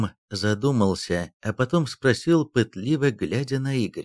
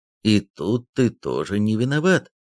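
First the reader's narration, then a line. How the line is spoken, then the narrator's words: Calm, nonjudgmental. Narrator (Russian): спокойно и без осуждения произнес Пушкин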